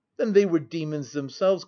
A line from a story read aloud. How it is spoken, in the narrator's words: cried I, unable to contain my indignation